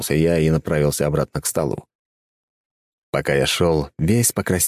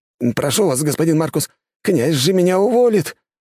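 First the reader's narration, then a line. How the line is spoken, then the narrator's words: Pleading. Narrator (Russian): взмолился Иннокентий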